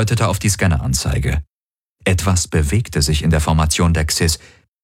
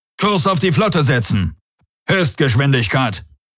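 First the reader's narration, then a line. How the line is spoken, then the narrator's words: Commander shouting. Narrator (German): rief der Feldherr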